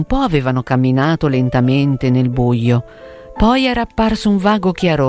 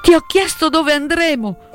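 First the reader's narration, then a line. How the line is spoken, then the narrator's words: Princess exclaiming. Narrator (Italian): esclamò la principessa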